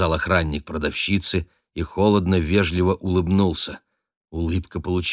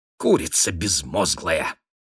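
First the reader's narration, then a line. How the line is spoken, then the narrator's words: Gloating hiss, lady. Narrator (Russian): злорадно прошипела дама в лисьей шапке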